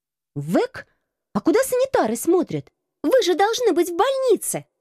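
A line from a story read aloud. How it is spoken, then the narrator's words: Strained squeak. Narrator (Russian): С трудом овладев голосом, пискнула я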